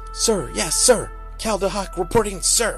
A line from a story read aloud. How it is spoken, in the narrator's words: Cal screamed like she had heard the other prisoner scream